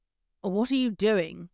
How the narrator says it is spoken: he asked

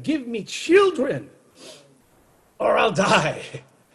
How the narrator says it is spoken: She pleaded with Jacob

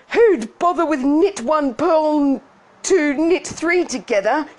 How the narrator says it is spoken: she shouted

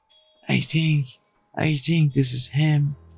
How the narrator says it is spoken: she wheezed

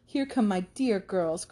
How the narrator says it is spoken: cried Mrs

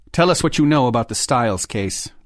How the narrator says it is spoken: Lee said in that same hard tone

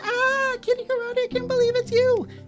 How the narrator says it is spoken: a bunch of fans, and they screamed

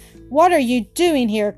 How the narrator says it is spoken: cried Jean, astonished to see him

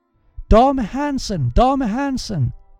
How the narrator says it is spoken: cried a voice

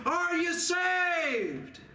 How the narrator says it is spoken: the dying Harper shouted the question

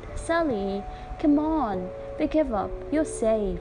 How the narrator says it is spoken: they called out

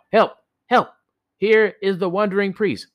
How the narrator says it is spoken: Tokubi yelled out

